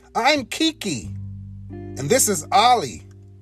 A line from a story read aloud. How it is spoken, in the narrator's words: said Kiki